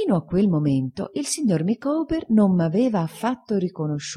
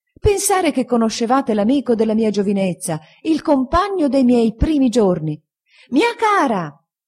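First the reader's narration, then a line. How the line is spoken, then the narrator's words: Woman shouting from railing. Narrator (Italian): gridando dalla ringhiera la signora Micawber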